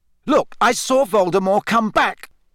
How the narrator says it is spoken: Harry shouted

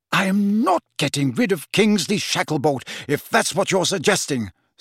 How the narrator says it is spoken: said the Prime Minister hotly

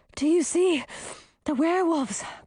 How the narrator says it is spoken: Grisina asked, gasping for air

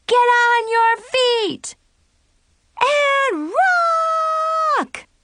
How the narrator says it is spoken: Chloe and Zoe yelled

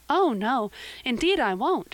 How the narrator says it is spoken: said Anne eagerly

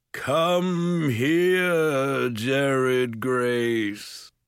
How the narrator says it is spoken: Mulgarath's voice boomed, far deeper than their father's

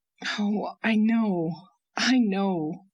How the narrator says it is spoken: groaned Owen

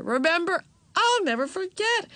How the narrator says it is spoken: exclaimed Aunt Beatrice

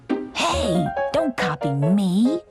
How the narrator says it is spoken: he growled

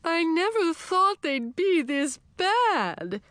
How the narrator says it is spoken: Olafat wailed

